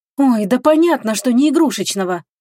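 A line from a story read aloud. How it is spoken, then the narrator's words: Snapping retort. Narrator (Russian): огрызнулась Агата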